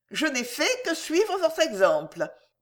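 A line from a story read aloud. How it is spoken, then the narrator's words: Brisk. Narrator (French): dit vivement Juliette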